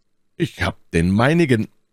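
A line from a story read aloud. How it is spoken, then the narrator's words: Called out. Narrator (German): rief D'Artagnan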